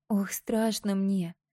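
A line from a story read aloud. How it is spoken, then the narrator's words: Moaning. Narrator (Russian): стонала Мира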